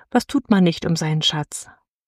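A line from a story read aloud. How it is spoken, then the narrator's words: Slight sigh. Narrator (German): und sie seufzte dabei ein wenig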